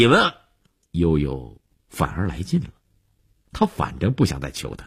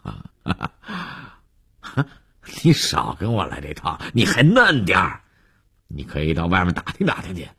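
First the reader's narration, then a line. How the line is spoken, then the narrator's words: Startled, then laughing. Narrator (Chinese): 李文海愣了一下，又笑着说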